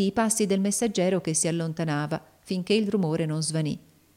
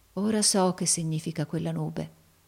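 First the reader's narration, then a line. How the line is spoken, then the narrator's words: Murmured. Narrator (Italian): mormorò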